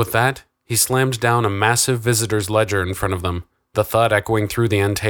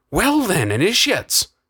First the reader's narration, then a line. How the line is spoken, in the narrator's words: the old guardsman laughed